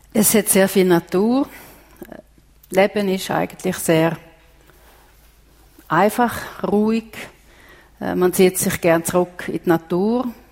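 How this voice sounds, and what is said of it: Slight Finnish accent in German. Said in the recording (German): “Man hört es ein bisschen am Akzent an, Sie sind ursprünglich in Finnland aufgewachsen.”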